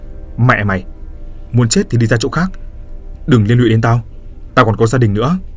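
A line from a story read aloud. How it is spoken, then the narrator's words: Angry yelling. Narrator (Vietnamese): quát tháo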